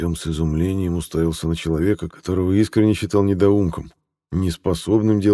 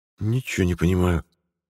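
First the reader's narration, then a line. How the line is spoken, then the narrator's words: Mumbled. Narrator (Russian): буркнул Артем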